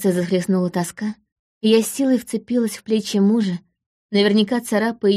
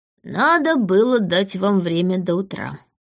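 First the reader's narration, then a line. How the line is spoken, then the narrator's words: Wry grunt. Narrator (Russian): хмыкнул Берт, уже почти пришедший в себя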